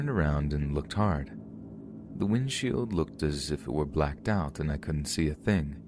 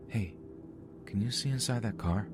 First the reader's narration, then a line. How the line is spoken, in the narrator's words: She whispers to me